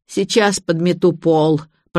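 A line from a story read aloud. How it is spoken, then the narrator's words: Moaning. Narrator (Russian): простонала домработница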